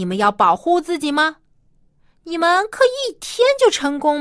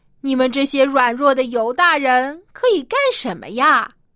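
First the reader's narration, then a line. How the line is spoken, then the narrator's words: Mocking. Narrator (Chinese): 这些坏邻居纷纷跑来嘲笑他们说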